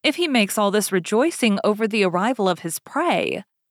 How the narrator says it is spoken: said Beauty, trying to laugh

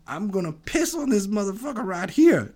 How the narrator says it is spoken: He starts yelling

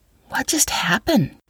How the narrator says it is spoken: Katie whispered

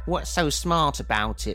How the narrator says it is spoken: Copley asked in his nasally tone

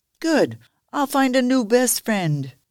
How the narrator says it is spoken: Benny yelled

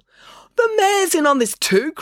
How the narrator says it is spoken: cried Maya

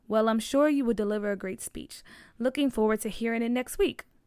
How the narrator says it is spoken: her teacher said

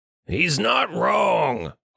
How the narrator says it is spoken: growled Richter

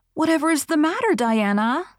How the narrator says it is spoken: cried Anne

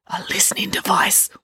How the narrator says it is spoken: whispered Dad

